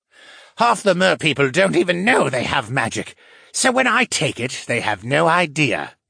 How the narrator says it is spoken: the fisherman snorted

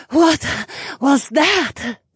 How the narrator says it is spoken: Valera asked between gasps

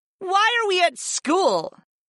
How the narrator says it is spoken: Fi whined

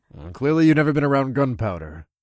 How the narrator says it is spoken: I grumbled

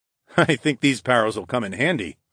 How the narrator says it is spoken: I chuckled

